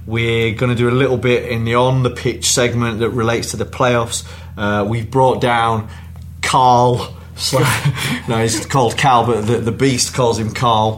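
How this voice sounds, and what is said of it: Northern English Yorkshire accent. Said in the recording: “your northern accent ... I've got Yorkshire”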